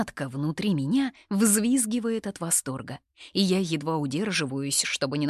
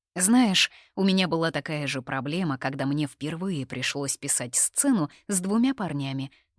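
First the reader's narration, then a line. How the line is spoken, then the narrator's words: Plain. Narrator (Russian): говорит Ясмина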